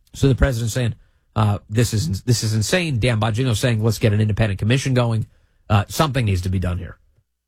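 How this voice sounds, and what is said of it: Congested voice with a cold. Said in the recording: “I've got to clear my throat a little bit. ... I've got a little bit of a cold or something ... I have to keep muting a little bit so I can cough, hack along up.”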